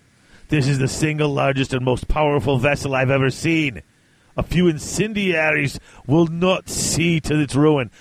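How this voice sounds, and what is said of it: Gruff fantasy dwarf character voice. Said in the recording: “Why do I make him a dwarf? I don't know. I don't have a Viking accent, so I just make them dwarfs.”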